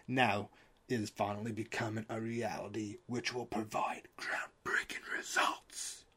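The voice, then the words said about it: Whispering. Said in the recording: “I don't know why I went into a whisper there.”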